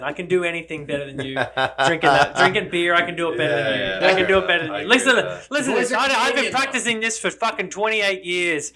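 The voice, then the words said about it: Put-on accent. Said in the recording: “Listen to my accent ... This accent gives me the right”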